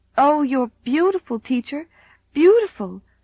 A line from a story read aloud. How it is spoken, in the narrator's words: gasped Rilla adoringly